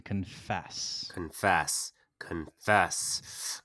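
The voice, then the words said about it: Cult-like chanting character voice. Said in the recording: “Was that culty enough? ... Was that a Game of Thrones impersonation?”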